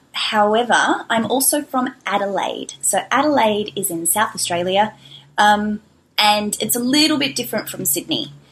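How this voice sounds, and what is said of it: Mild Australian accent. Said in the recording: “the Australian accent. Now, my accent is a little bit mild”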